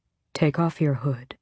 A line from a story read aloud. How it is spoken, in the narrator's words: he said with a soft growl